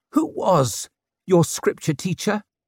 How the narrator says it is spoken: She croaked

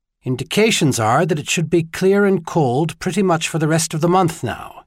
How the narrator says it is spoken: he replied

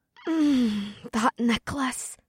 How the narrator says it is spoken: Amber moaned inside my mind

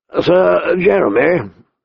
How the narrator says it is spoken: the old bear said gruffly

